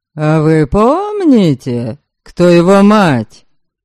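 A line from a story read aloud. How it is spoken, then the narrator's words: Sarcastic question. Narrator (Russian): язвительно осведомился Ярослав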